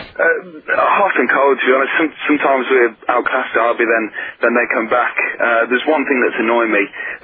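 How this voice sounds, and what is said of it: East Midlands English accent. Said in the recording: “The East Midlands accent gave it away.”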